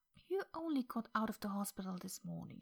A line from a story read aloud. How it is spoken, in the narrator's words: she said gently